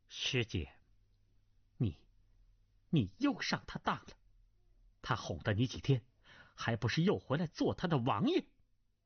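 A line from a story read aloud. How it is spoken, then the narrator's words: Cold female voice. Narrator (Chinese): 背后一个女子的声音冷冷的道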